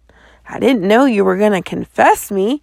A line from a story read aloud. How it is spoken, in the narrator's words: gasped